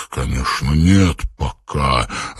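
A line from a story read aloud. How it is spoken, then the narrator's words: Irritated reply. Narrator (Russian): раздраженно ответил Суслив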